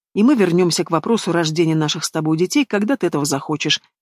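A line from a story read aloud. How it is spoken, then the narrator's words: Plain. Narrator (Russian): говорит Хайдар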